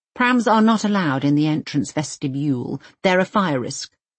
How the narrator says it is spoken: she declares

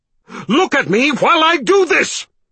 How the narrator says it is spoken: he yelled

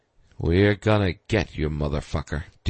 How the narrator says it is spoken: Ding breathed, back to business and wearing his mission face again

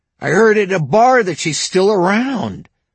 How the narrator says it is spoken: Joshua gasped

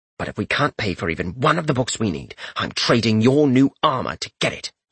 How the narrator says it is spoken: he mumbled

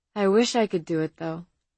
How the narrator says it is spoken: she said sadly

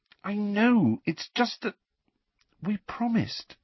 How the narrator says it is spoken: said Hermione in a small voice

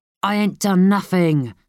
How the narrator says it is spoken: snarled Lomax

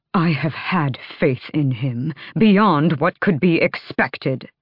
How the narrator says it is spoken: Vernon snapped

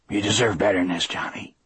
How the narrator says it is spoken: he said hoarsely

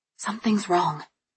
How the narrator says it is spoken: I whispered to him

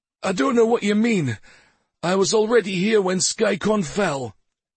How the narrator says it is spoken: he gasped

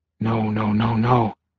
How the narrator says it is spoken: Thomas whispered

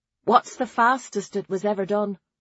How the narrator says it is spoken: Nona asked

